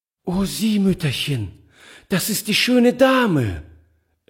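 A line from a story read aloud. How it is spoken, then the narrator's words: Delighted cry. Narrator (German): rief sie voll Entzücken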